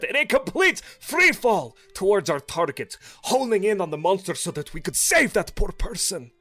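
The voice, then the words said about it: Put-on character accent. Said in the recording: “Words are hard in this accent.”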